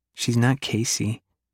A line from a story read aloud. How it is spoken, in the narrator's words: Silver says quietly